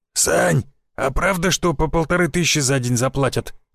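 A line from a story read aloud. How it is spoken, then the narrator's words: Hoarse question. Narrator (Russian): спросил хриплый голос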